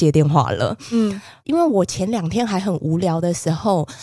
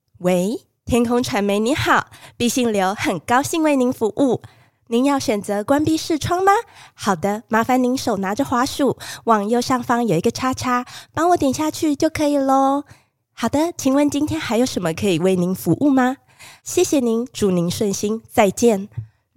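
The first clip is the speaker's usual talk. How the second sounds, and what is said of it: Chirpy, professional customer-service voice. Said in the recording (Chinese): “那么雀跃的声音 ... 偷学她的腔调 ... 我完美的复制了他的语气 ... 用很雀跃，然后很专业的口音”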